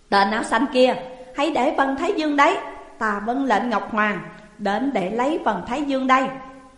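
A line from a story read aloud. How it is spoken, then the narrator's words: Child shouting loudly. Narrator (Vietnamese): một đứa bé khác, mặc áo đỏ, đôi mắt sáng quắc, từ phương nam chạy đến hét lớn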